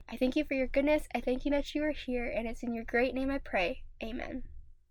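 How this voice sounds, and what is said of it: Slightly raspy, weird-sounding voice. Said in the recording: “my voice may sound a little weird. It may sound a little like almost ... raspy ... I am still getting over a cold”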